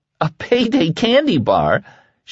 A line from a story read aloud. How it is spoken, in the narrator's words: exclaimed